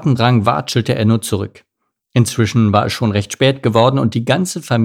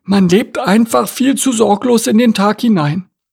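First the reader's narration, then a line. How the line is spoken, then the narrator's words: Sighing. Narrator (German): seufzte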